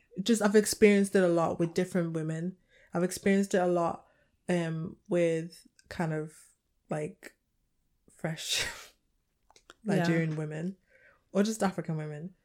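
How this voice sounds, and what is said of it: British accent. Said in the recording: “my accent's just very triggering ... I'm very British”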